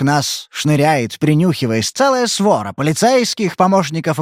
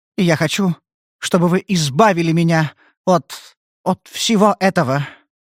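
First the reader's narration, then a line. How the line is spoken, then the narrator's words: Thin trembling voice. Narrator (Russian): ответила она тонким, дрожащим голоском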